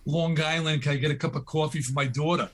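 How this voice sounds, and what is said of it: Put-on New York accent. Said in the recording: “first you got to lose the New York accent.”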